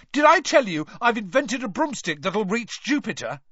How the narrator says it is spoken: Ron was yelling

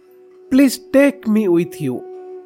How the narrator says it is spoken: pleaded Chela Baba

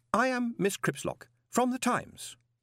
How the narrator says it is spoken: she said brightly

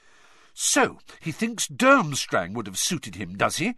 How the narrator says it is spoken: she said angrily

